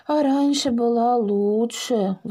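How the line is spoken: Sighing. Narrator (Russian): вздохнул Дракоша

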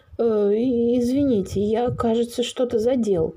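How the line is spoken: Flustered mutter. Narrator (Russian): растерянно пробормотал Лев Павлиныч

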